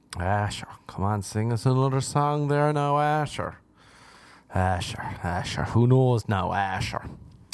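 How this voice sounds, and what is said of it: Put-on Irish accent. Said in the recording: “What is up with my accent? ... the Irish equivalent ... that's what an Irish girl says”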